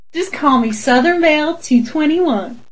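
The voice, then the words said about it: Cartoonish attempted Southern belle accent. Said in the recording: “I wanted to try your accent ... This doesn't even sound anything fucking close to what you're saying. It sounds like a bad cartoon ... just to be Southern Belle”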